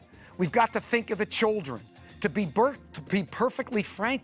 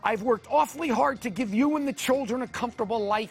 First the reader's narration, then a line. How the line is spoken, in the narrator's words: he said bitterly